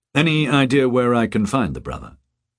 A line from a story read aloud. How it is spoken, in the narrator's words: the policeman asked